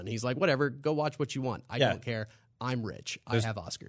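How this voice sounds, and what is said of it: Good Steven Spielberg impression. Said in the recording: “That was a good Spielberg impression.”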